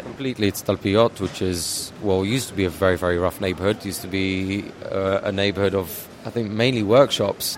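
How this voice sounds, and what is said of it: British English accent. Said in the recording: “So what's that accent that I hear? ... English, British. Yeah, I grew up in England.”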